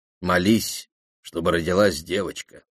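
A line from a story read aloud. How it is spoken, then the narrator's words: Plain. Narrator (Russian): сказал генерал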